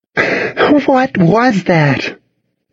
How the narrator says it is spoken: Cassidy asked, gasping

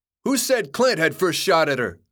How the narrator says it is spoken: someone yelled from the crowd

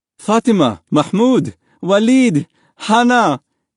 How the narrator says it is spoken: his father cried

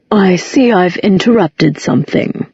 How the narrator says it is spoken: said Valentine, his voice as dry as a desert afternoon

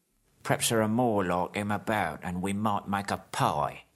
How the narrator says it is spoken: said Bert

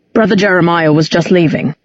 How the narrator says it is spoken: he said

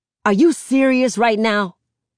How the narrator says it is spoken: Uncle Carlos yells

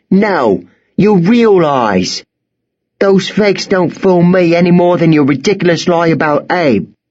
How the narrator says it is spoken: stamped her foot and shouted

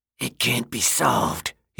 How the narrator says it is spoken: said, his voice now quiet and distant, spooky

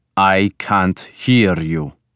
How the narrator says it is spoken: Ragnar snarled

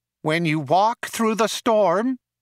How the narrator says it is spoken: it whined nasally

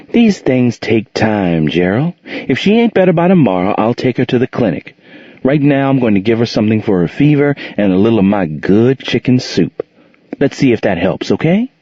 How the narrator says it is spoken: Monique sighed, and replied

